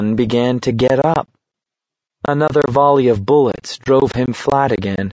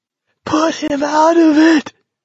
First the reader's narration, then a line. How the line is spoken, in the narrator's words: a shocked voice screamed hoarsely